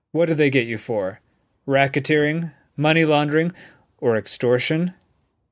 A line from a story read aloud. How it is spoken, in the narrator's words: Megan chuckled